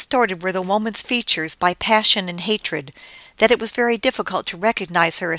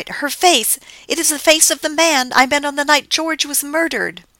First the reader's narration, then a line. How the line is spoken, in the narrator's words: she cried, terrified